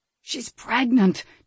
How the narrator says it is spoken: Timoteo informed him in a false whisper

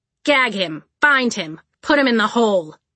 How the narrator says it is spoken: Caledonia snapped

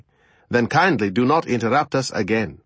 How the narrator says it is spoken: I said coldly

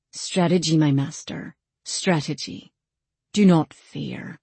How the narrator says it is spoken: Cowan leaned in and murmured to me

